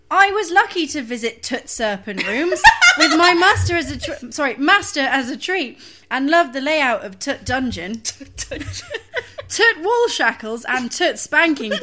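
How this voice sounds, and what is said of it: Poor attempt at Northern English accent. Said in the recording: “I can't do a Yorkshire accent ... Just do generic Northern ... I'm terrible at accents”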